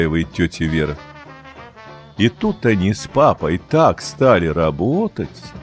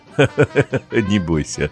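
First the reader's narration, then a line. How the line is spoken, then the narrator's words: Laughing. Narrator (Russian): засмеялась тетя Вера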